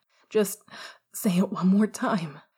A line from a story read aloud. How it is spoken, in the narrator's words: Remus pleaded suddenly